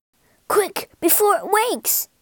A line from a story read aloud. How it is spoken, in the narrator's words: cried Hassan